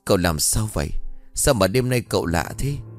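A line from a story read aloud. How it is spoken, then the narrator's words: Terrified stammer. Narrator (Vietnamese): Tám run rẩy như cầy sấy, lắp bắp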